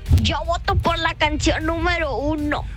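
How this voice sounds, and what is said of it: Put-on old man voice. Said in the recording (Spanish): “esa es la voz de viejito”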